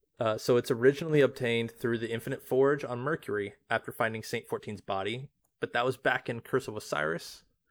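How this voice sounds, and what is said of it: Reading in a put-on accent. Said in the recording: “Are you going to do the accent the entire time?”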